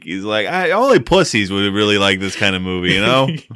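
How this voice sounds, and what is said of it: Exaggerated Philadelphia accent. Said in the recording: “It's a terrible Philadelphia accent.”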